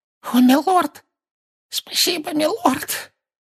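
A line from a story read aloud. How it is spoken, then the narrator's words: Hoarse with relief. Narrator (Russian): выдавил из себя Руквуд голосом хриплым от облегчения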